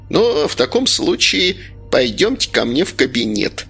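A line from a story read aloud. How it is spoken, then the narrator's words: Plain. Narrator (Russian): сказала Ольга Васильевна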